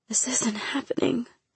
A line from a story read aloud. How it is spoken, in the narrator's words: I mumbled